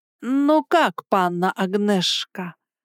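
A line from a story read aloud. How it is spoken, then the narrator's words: Drawled. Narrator (Russian): Я протянула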